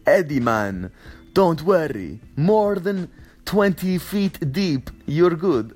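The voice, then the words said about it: Put-on Russian accent. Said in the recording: “I just gave him a Russian accent”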